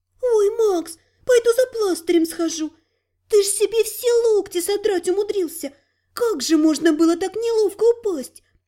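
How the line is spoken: Sympathetic sigh. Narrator (Russian): Сочувственно вздохнула невидимая Мири

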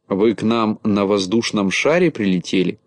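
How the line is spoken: Plain question. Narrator (Russian): спросила черноволосая Галочка

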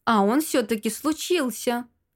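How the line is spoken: King's snort. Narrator (Russian): хмыкнул король

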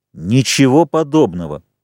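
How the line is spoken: Loud speech. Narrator (Russian): громко сказал Ральф

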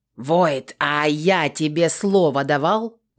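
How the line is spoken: Commander's bark. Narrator (Russian): рявкнул командир

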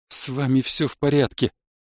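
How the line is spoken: Trembling voice. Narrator (Russian): дрожащим голосом сказал я

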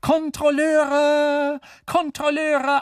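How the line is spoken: Calling out. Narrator (German): Sie rief

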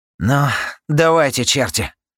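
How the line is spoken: Exhaled. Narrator (Russian): Выдохнул он

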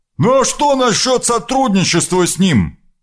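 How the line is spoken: Calling after someone. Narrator (Russian): крикнул ей вслед Дан

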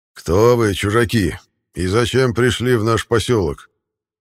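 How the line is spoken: Menacing question. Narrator (Russian): Грозно спросил нас старейшина

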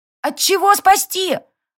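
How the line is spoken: Loud question from behind. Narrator (Russian): громко поинтересовалась Сари из-за спины родственника

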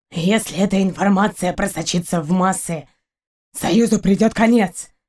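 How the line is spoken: Low muffled growl. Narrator (Russian): Каранис глухо зарычал

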